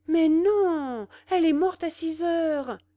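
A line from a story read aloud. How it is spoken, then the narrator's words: Exclaimed. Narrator (French): s'écria sa niette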